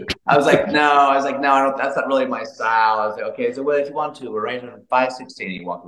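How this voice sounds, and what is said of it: Usual voice. Nothing is said of it.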